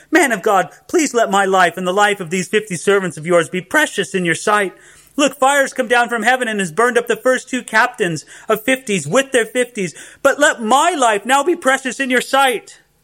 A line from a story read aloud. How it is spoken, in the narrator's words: the third captain of 50 pleaded with him and said to him